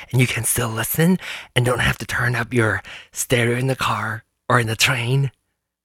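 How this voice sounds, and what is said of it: Whispering. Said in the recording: “Okay, I'm going to whisper. But I'm turning up my microphone so I can whisper.”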